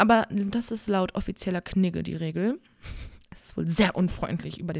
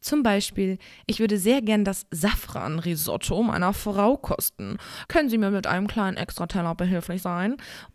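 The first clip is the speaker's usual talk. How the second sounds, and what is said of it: Exaggerated snooty reading voice. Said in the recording (German): “mit so einer überzogenen Stimme ... so schnöselig”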